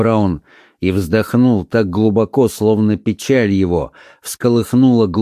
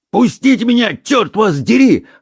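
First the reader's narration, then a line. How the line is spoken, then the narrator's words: Bellowing like a bound giant. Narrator (Russian): орал Колон, словно связанный гигант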